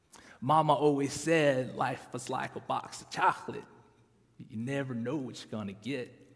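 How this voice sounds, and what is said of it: Terrible Forrest Gump accent imitation. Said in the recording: “That's a terrible, terrible accent”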